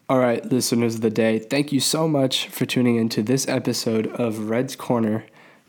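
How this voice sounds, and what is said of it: Sick-sounding voice. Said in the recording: “I am sick. You might hear it in my voice.”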